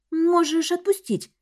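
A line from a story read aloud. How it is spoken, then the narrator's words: Uncertain. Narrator (Russian): неуверенно произнесла я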